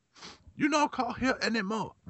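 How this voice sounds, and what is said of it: Put-on Asian accent. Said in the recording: “you gotta do the Asian accent.”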